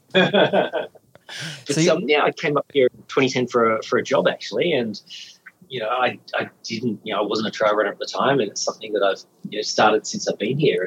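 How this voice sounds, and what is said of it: Australian or New Zealand accent. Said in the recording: “I'm hearing a bit of a Antipodean twang in your voice.”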